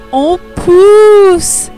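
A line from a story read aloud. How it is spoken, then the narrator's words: Exclaimed. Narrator (French): s'écrie-t-elle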